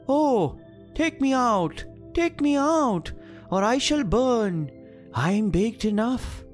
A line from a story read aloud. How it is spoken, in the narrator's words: the bread maker called out to her